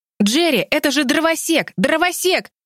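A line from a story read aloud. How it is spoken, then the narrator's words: Yelling. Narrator (Russian): вопил Тим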